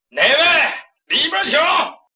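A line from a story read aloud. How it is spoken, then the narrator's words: Shouted. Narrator (Chinese): 酒亭院子里边有人喊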